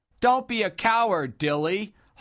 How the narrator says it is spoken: hollered Sob from a neighboring table

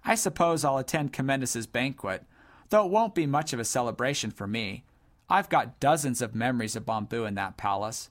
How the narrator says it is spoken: said Sir Lonk in a melancholy voice

